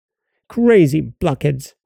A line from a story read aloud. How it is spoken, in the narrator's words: snapped the dwarf